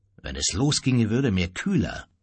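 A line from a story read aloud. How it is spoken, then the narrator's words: Grumbled. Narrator (German): brummte Hermann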